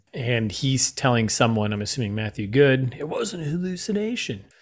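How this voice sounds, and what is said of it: Ryan Reynolds doing Ben Kingsley impression. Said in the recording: “Is that your Ben Kingsley impression? ... Is that your Ryan Reynolds doing Ben Kingsley? ... That is a good Ryan Reynolds doing Ben Kingsley.”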